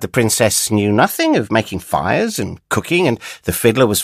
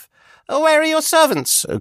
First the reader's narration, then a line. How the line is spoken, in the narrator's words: cried